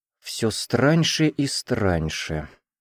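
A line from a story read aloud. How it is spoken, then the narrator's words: Muttered. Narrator (Russian): пробормотал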